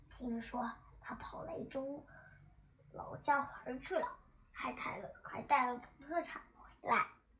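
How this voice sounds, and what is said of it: Very quiet, whispered voice. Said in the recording (Chinese): “用极小的声音说”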